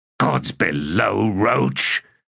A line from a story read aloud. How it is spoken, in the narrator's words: said in a hoarse voice